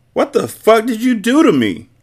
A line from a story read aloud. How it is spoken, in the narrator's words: she yelled